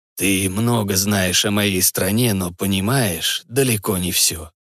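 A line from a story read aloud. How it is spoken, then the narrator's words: Calm, patronizing explanation. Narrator (Russian): спокойно, словно разговаривая с неразумным ребенком, пояснил Хан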